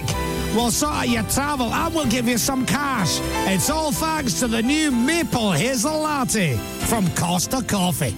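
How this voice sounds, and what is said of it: Exaggerated over-the-top Scottish accent. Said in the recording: “What about in a Scottish accent? ... a ridiculous, over-the-top Scottish accent for people who are not Scottish? ... Oh, option B, always.”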